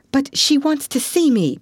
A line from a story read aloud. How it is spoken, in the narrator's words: pleaded Anne